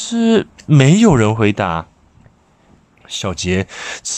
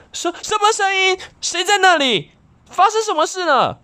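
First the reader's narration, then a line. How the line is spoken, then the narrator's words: Loud question. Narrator (Chinese): 小杰大声问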